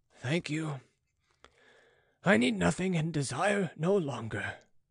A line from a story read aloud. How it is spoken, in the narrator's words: sighed the prelate